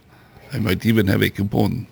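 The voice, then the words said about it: Put-on French accent. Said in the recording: “Got to do that with a French accent.”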